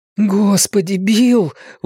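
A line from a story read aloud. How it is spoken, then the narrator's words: Breathless exhale. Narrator (Russian): выдохнул Ричи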